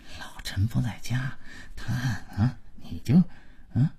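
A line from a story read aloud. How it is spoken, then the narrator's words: Quiet but audible muttering. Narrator (Chinese): 马老头跟老婆小声，但足以让姥姥听见的嘀咕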